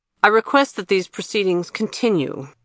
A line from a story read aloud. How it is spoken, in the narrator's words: said abruptly and harshly